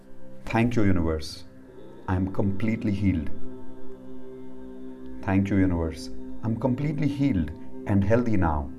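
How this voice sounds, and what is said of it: Slow, deliberate speech. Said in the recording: “I'm saying it slowly so you can repeat with me.”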